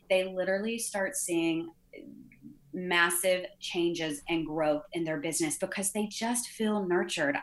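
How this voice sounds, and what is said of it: Strong Southern US accent. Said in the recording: “you guys can hear the accent. I'm super Southern.”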